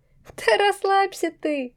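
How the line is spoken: Chuckle. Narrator (Russian): хохотнула я

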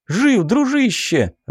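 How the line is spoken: Joyful relieved exclamation. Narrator (Russian): радостно возликовал Суздалев и облегченно выдохнул

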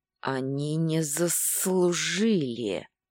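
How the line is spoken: Menacing wheeze. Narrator (Russian): грозно просипел он

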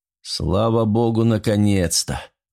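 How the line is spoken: Relieved exhale. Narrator (Russian): выдохнул Джулиани

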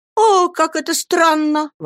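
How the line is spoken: Exclaimed. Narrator (Russian): воскликнула Дора

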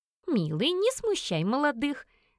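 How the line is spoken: Mock-stern. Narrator (Russian): нахмурилась

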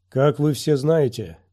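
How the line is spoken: Ringing voice. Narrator (Russian): начал Нильт звонким голосом

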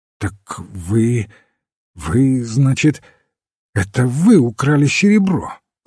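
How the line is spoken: Stammering, bewildered question. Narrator (Russian): запинаясь, спросил мистер Одли с недоумением

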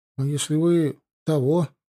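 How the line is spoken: Mumbling. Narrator (Russian): промямлил Комов

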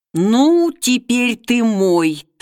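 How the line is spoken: Through gritted teeth. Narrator (Russian): сквозь зубы вырвалось у гончара Александра

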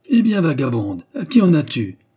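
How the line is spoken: Scolding shout from indoors. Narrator (French): s'écria de l'intérieur du logis une voix grondeuse

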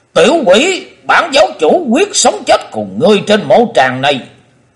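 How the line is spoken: Loud roar. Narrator (Vietnamese): Lão ta gầm to lên

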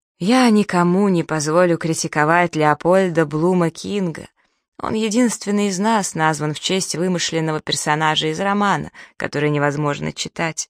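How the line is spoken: Weak voice. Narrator (Russian): слабым голосом произносит Тревор

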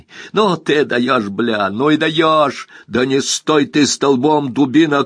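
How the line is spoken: Shouting. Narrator (Russian): крикнул Скип

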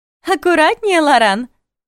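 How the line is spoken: Laughing. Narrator (Russian): рассмеялась Илонесса

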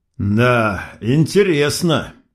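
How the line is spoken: Forced out reluctantly. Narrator (Russian): выдавил

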